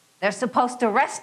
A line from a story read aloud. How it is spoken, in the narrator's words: he bellowed